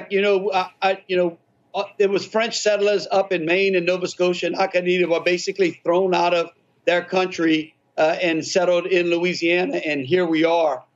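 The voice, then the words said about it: Cajun Louisiana accent. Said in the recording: “It's definitely Louisiana. That Cajun accent is it's beautiful.”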